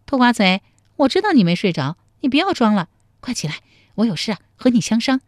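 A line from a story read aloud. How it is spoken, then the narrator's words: Cheerful, giggling. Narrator (Chinese): 陶三春笑嘻嘻地说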